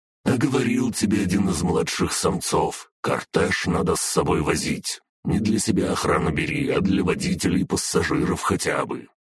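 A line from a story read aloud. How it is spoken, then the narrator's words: Dragoness grumbling. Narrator (Russian): проворчала дракониха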